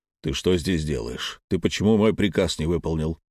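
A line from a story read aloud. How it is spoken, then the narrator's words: Grumbling headmaster. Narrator (Russian): нахмурился и заворчал директор школы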